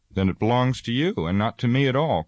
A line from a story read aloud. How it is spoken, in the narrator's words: cried Frodo in amazement